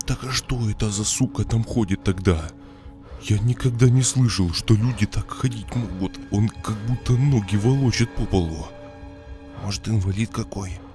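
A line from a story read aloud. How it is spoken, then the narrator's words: Smiling whisper. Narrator (Russian): Улыбаясь, прошептал Кирюха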